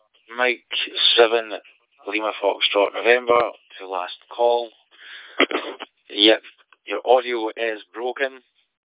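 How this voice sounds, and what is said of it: Strong Scottish accent. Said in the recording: “So the accent's a little bit too sharp for me ... Apologies if my accent is too much. It is very Scottish.”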